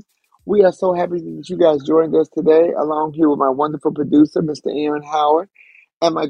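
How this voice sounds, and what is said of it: Heavy, weighed-down voice. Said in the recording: “my voice is a little heavy today. I need to take some weights off of it”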